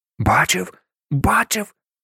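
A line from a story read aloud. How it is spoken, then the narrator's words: Whisper. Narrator (Ukrainian): прошепотів Сем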